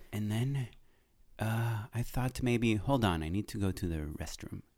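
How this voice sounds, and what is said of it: Put-on European accent. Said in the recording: “European directors because their accent”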